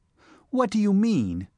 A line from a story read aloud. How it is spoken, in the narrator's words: she cried